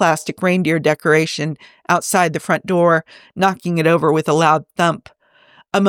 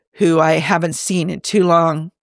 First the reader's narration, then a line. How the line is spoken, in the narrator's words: Bones sighed